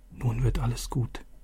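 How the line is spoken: Whispering. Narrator (German): flüsterte Vater zu

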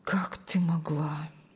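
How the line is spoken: Strained, pained utterance. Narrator (Russian): Все, что он мог выдавить из своей наполненной болью груди

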